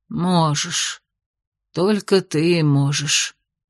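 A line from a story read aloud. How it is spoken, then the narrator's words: Quiet snort. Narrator (Russian): тихо хмыкнула королева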